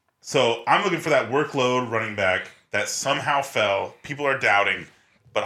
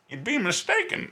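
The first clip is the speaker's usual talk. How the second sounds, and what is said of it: Good Bane character voice. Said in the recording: “you do the Bane voice ... That's really good.”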